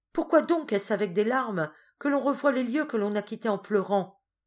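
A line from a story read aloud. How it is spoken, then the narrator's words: Young girl's exclamation. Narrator (French): s'écria la jeune fille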